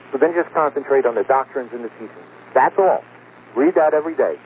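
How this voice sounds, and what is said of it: Fast-talking New York accent. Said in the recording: “We should do this program on slow speed ... I'm a fast-talking New Yorker. I'm downstate, and that's the way I talk.”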